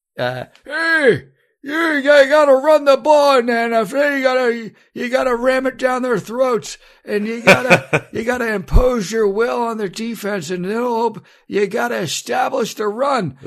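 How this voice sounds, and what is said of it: Good impression of a football coach. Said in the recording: “This is a really good impression.”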